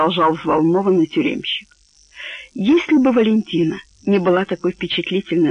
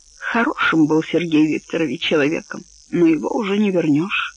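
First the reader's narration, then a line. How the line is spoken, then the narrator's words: Jailer, thoughtful. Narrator (Russian): задумчиво произнес тюремщик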